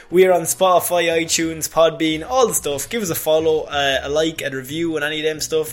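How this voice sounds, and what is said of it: Fast speech, Irish accent. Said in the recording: “I was talking way too fast in my Irish accent”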